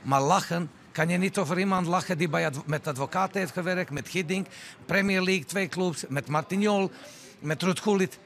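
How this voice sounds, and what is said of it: Dutch with a foreign accent. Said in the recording (Dutch): “over mijn accent ... ik ben een Nederlandse trainer met buitenlandse afkomst. Ik heb andere accent”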